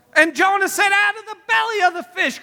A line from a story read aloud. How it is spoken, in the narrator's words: cried I